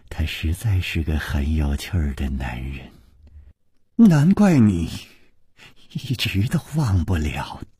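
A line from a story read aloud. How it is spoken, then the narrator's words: Murmuring. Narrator (Chinese): 宫南燕喃喃地说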